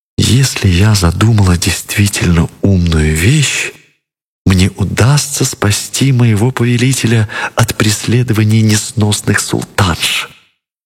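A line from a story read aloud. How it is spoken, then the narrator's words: Whispered. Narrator (Russian): шептала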